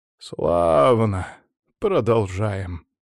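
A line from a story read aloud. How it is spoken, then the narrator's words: Sighing. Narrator (Russian): вздохнул Лаврентий Матвеевич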